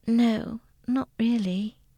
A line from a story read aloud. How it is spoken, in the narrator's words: Katie answered in a tired voice